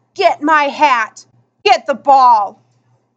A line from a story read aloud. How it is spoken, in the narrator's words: He roared